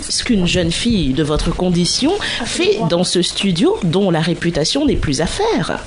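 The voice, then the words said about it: Put-on posh bourgeois French accent. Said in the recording (French): “j'ai fait un accent de bourgeois”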